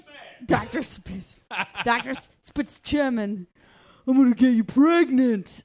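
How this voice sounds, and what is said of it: Imitates another person's voice. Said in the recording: “a spot-on impersonation”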